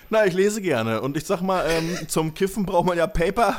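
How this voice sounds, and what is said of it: Speaks in a regional dialect. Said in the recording (German): “Sorry, dass ich angefangen habe mit dem Dialekt.”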